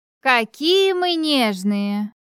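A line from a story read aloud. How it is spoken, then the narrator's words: Drawled. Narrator (Russian): протянула она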